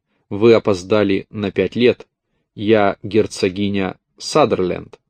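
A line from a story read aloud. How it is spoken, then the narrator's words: Calm, without hostility. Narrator (Russian): Он сказал это без всякой враждебности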